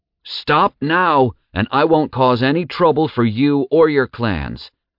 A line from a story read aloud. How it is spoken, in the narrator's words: Zack roared at the top of his lungs